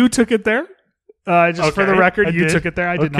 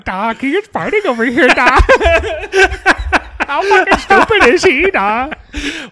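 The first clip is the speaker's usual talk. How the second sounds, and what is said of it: Put-on Latina woman character voice. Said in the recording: “turn into like a Latinx woman with like hoop earrings and long fingernails”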